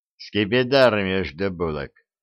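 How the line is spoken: Grim joking. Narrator (Russian): мрачно отшутился доктор

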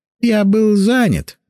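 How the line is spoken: Muffled, hollow voice. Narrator (Russian): глухо проговорил Мосянь

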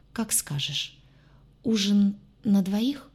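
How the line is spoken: Uncertain question. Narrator (Russian): неуверенно уточнил

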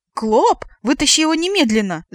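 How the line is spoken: Shrieking. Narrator (Russian): завизжала я

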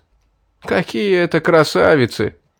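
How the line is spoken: Near howling. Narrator (Russian): едва не взвыл Сурхат

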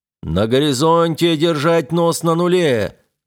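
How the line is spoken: Loud command. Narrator (Russian): громко приказал Плато

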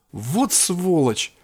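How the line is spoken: Exclamation. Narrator (Russian): воскликнула Кин

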